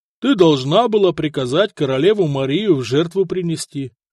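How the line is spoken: Plain. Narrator (Russian): ответил ей муж

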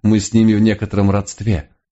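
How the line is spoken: Wry snort. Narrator (Russian): хмыкнул месье Ренар

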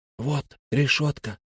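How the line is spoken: Whispered. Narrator (Russian): прошептал Фари

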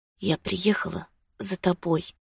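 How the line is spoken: Whispered. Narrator (Russian): прошептала она

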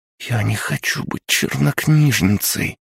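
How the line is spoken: Whisper with a sob. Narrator (Russian): прошептала Маша и всхлипнула

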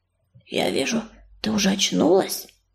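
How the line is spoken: Nearby whisper. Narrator (Russian): прошептал чей-то голос рядом

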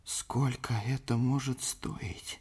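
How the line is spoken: Whisper. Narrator (Russian): прошептал пан Валента

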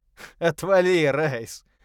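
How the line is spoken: Laughing loudly. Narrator (Russian): расхохотался Паркер

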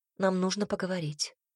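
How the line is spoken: Whisper. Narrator (Russian): прошептала

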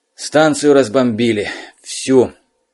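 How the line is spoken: Hoarse. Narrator (Russian): хрипло сказал он

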